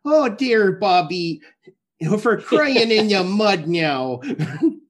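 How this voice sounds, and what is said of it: Put-on Midwestern Wisconsin mom accent. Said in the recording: “that's where I pull my Midwestern ... that just Wisconsin accent there.”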